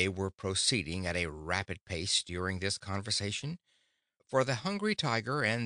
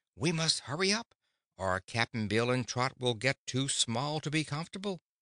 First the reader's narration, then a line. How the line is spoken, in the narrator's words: said the girl anxiously